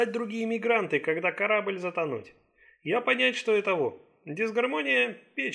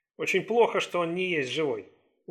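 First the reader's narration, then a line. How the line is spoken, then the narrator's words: Sullen mutter. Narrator (Russian): угрюмо буркнул Ли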